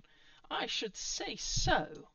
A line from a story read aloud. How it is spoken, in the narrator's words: Other Giles exclaimed